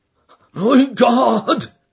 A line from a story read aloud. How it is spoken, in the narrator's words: he cried